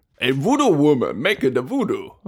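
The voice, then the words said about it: Voodoo woman character voice. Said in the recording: “my voodoo woman impression”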